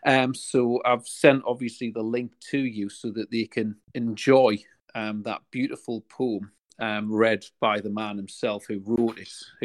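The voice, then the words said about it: Newcastle regional English accent. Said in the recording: “obviously ... is from Newcastle, as am I, for any of your listeners that don't recognise a regional accent.”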